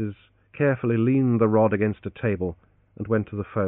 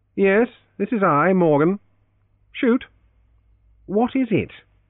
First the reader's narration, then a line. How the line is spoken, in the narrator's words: interrupted irritably